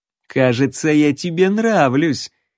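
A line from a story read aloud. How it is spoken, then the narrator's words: Cheerful. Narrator (Russian): весело произнес Рексволд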